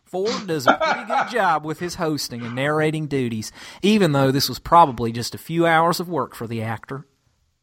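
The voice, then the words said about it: Put-on drawling Kentucky accent. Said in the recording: “my Kentucky accent ... the drawling”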